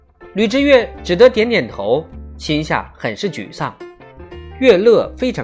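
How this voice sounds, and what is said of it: Usual voice. Nothing is said of it.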